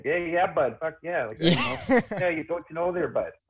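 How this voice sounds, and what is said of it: Put-on northern Ontario hick accent. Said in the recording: “we have northern accents here, too ... that's like northern Ontario ... that's as, like, hick as you get with the accent”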